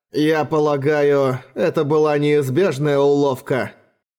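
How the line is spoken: Sighing. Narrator (Russian): вздохнул Джоад

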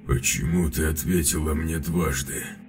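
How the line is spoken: Hoarse question. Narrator (Russian): охрипшим голосом спросил капитан

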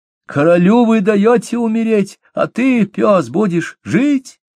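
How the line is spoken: Shouting out. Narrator (Russian): Она выкрикнула

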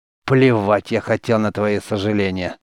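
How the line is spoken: Growled through gritted teeth. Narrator (Russian): сквозь зубы прорычал Гордон

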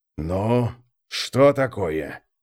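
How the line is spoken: Hissing. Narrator (Russian): прошипел престол тени

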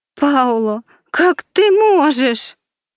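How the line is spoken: Trembling voice, sobbing. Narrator (Russian): Голос Виктории дрогнул, и она разрыдалась

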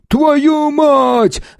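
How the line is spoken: Yelling. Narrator (Russian): заорал Федя

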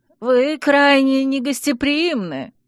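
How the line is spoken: Hoarse, breathless. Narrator (Russian): прохрипел принц, еле вырвавшись из цепких рук разгневанного Чейза

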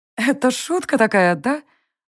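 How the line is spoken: After laughing, clarifying. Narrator (Russian): уточнила я, отсмеявшись

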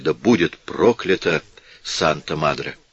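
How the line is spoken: Unconscious dying whisper. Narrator (Russian): в эту последнюю минуту жизни губы его бессознательно прошептали

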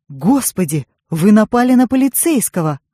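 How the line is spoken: Exclamation. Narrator (Russian): воскликнул фабрикант

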